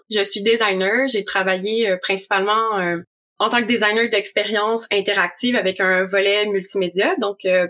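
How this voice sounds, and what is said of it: Québécois French accent. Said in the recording (French): “J'habite à Montréal aussi, si vous l'entendez par mon accent, donc euh, je viens du Québec.”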